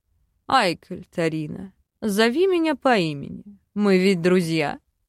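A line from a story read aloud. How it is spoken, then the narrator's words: Slightly hoarse male voice. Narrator (Russian): Подал голос мужчина с едва заметной хрипотцой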